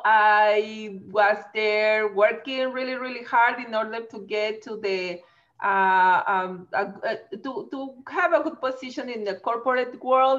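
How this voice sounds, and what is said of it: Mexican accent. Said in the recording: “I am originally from Mexico, as you can see in my accent”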